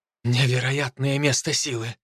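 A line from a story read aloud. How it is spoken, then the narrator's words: Muttering. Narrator (Russian): бормотала девушка-волчица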